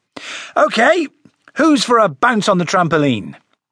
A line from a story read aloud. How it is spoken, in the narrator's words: He raised his voice, put on a big smile and said